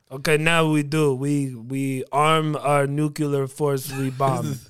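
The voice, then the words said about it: Put-on Russian accent. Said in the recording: “That was my Russian accent.”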